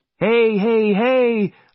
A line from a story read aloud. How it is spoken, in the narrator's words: I shouted